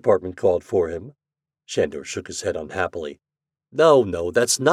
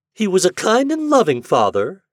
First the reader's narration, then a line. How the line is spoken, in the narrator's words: she said, her voice mocking